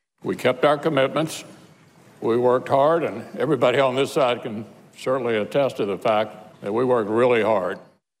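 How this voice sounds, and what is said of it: Voice choked up with emotion. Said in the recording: “getting a bit choked up”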